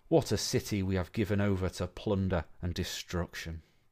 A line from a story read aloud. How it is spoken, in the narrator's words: Tears fell from his eyes as he groaned deeply and passionately